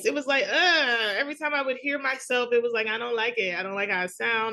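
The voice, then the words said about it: Thick New York accent. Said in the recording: “I have the thick New York accent”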